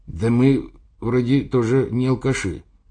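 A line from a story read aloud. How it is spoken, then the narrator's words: Uncertain. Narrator (Russian): неуверенно сказал перевязанный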